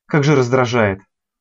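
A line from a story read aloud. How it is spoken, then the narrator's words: Suddenly angry. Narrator (Russian): Неожиданно зло бросил принц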